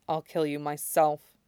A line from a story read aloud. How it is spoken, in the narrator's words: says quietly